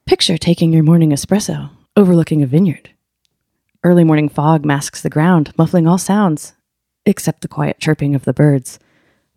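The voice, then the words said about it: Put-on podcast-host narration voice. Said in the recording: “demonstrate this podcast voice ... read some of that purple prose to us now in the podcast voice.”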